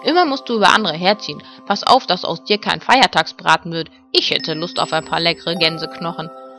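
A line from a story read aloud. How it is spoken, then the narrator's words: Grumbling. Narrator (German): brummte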